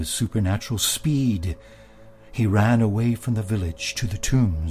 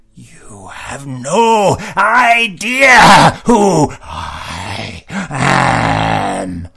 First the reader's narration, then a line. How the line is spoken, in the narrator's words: he screamed one more time